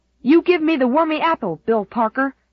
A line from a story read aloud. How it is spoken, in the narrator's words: Andy was howling